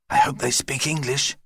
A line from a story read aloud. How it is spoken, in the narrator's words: whispered Judy